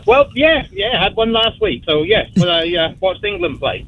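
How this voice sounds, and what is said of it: English accent. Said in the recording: “I love your accent. ... I'm from England.”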